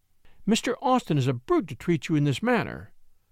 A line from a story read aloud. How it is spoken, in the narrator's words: she cried indignantly